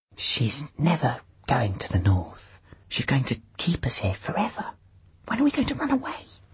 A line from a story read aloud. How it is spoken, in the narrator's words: Pantalaimon whispered from the pillow